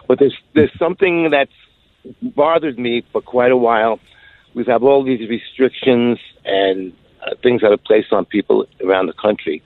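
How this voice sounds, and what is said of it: New York accent. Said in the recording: “you've got to use my New York accent, a little different than you, some of the people that have been calling in”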